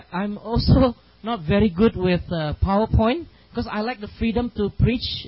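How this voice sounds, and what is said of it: Singaporean English accent. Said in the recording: “my Singlish accent ... It's a Singapore English”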